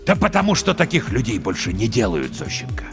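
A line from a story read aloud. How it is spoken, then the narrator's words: Quiet, weary, angry. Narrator (Russian): Кузьмич перестает кричать, говорит тихо, устало и зло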